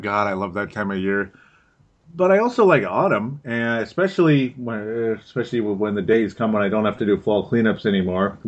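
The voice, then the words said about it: Minnesota accent. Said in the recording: “I've got a Minnesota accent.”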